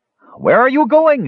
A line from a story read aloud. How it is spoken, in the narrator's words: shouted Skowar